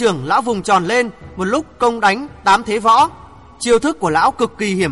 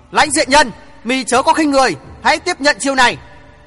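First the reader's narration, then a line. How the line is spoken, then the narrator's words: Old man's loud shout. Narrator (Vietnamese): Lão quát to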